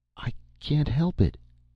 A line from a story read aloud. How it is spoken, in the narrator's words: she said in a small, faint voice